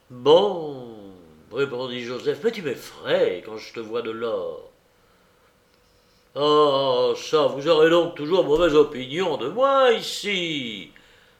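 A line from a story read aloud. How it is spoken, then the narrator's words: Thundering officer's exclamation. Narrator (French): s'écria le lieutenant-colonel d'une voix tonnante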